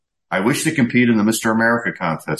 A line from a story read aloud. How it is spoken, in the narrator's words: said Mr